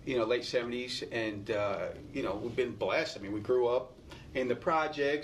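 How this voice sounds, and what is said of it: Bronx New York accent. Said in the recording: “The Bronx ... I hear an accent. ... I can hear it too.”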